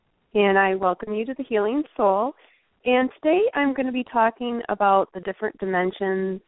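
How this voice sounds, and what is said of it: Voice weakened by a cold. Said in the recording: “I'm just recovering from a cold, so bear with me. My voice is not 100% today.”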